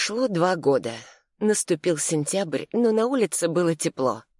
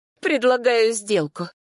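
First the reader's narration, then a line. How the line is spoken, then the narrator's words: Loud laughter. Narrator (Russian): Матвей расхохотался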